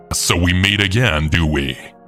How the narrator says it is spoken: with an evil laugh, then saying to me

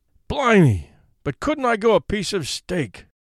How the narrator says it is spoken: he muttered aloud, clenching his huge fist and spitting out a smothered oath

